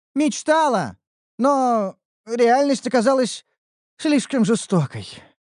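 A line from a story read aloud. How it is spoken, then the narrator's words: Sighing. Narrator (Russian): вздохнула Ниуру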